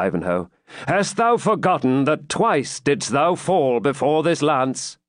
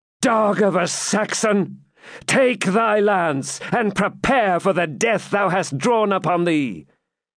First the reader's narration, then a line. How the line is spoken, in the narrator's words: exclaimed, looking fiercely at Ivanhoe